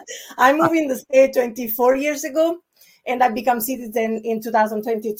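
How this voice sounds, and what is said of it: Italian accent. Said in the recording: “As you can hear, I have a sort of accent. I'm Italian.”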